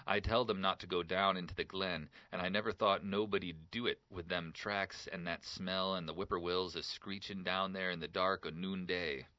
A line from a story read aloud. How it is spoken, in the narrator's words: he gasped